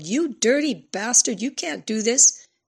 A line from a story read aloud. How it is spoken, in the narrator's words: She yelled